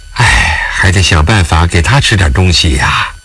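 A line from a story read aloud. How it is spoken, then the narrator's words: Sighing repeatedly. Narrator (Chinese): 吉法娘止不住地叹气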